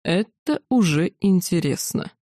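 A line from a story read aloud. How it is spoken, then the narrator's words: Slow, syllable by syllable. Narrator (Russian): разделяя слоги, медленно произнес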